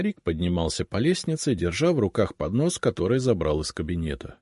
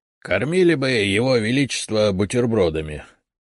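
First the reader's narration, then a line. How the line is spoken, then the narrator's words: Good-natured grumble. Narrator (Russian): добродушно проворчал Игнат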